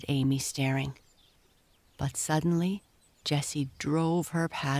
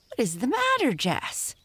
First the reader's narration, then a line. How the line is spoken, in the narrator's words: shrieked Amy